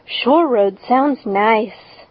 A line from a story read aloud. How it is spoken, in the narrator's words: said Anne dreamily